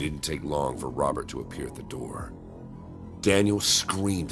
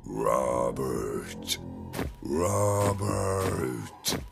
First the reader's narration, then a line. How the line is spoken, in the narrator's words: Daniel, in costume, growled